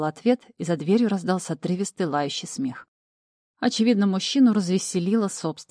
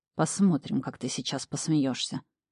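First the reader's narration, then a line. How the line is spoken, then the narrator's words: Low-voiced threat. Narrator (Russian): вполголоса пригрозил Тэтчерд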